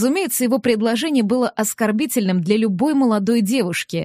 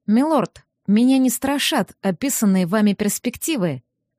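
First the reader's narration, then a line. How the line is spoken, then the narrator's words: Calm reply. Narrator (Russian): спокойно отозвалась я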